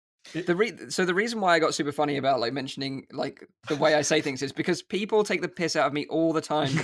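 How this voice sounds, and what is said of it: UK accent. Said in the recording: “my UK accent, this is just the way I talk.”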